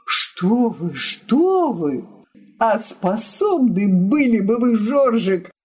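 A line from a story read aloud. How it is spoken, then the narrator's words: Exclaiming. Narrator (Russian): воскликнул Балтахин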